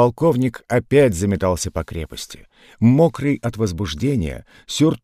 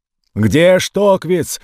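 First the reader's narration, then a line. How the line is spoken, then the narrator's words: Shouting. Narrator (Russian): орал полковник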